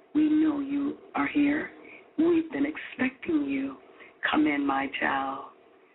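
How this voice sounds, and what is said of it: Sweet whispering voice. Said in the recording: “whispers to him in a very sweet voice”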